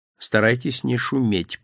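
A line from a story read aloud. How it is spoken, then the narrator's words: Whisper. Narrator (Russian): прошептал Дольчепиано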